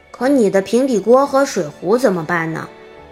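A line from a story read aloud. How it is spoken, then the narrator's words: Plain question. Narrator (Chinese): 乔问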